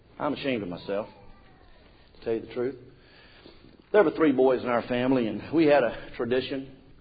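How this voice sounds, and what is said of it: Southern American accent. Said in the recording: “I'm a Southerner... this Southern accent that I have... I've decided to just keep my Southern accent.”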